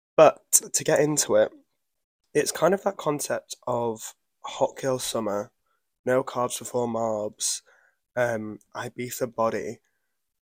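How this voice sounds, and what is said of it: Hoarse, fading voice. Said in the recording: “I'm losing my voice, so I do apologize for whoever has to listen to this”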